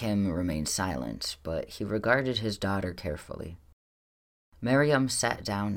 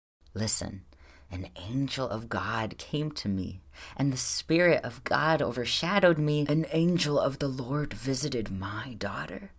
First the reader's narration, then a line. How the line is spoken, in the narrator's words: her father exclaimed, lifting his face heavenward